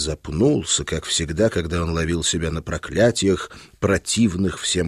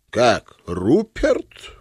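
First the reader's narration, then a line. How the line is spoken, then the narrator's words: Furious exclamation. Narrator (Russian): воскликнул князь, разгневанный да нельзя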